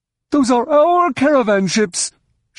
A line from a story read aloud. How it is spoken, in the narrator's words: she bellowed